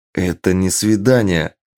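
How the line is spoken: Quick growl. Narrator (Russian): тут же рыкнул

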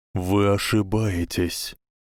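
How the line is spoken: Quiet reply. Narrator (Russian): тихо ответил Альбус

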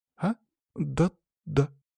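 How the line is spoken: Uncertain girl's voice. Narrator (Russian): неуверенно закивала девочка

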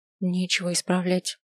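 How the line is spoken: Quiet reply. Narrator (Russian): так же тихо ответила

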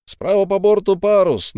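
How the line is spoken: Sudden shout, lookout. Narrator (Russian): неожиданно крикнул сигнальщик

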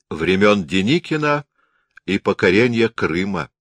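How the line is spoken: Smirking. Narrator (Russian): усмехнулся Берг

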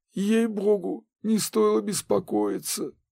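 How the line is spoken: Hoarse. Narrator (Russian): хрипло произнес Минц

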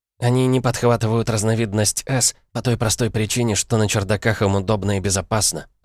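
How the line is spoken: Plain reply. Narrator (Russian): ответила Джейн

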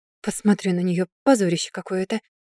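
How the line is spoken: Grumble. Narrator (Russian): буркнул первый

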